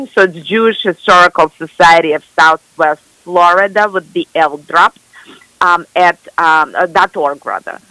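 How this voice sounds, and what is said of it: Speaks with an accent. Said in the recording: “with my accent sounds somewhat confusing”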